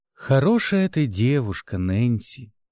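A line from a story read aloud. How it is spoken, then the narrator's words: Purring. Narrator (Russian): мурлыкнул лорд Астрей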